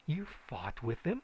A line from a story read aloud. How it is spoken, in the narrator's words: she exclaimed